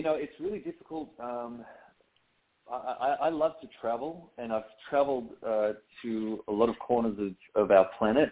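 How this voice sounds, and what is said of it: Australian accent. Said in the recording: “when you started your career in Australia and eventually transitioned to the U.S., what kind of adjustment, if any, was it for you besides the accent?”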